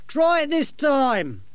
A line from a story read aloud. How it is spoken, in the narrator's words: Dorcas shout